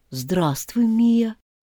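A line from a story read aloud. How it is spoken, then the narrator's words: Timid greeting. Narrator (Russian): Робко поздоровался Лео Фред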